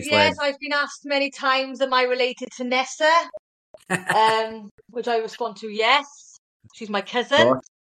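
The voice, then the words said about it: Welsh accent. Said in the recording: “I too, being an Aussie, am very fascinated with the Welsh accent”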